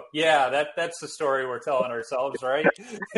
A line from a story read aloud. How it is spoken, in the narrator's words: laughing